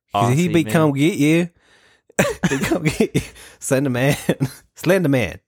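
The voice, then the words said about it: Put-on Australian accent. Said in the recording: “This Aussie ... That's the accent I'm going for.”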